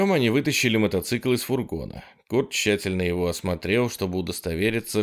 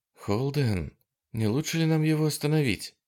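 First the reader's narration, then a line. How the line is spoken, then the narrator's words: Whisper. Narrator (Russian): шепнула Дана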